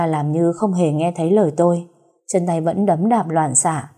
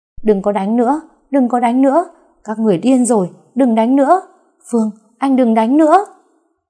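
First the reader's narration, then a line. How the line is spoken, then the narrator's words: Terrified full-force screaming. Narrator (Vietnamese): Tôi sợ quá nên dùng hết sức gào lên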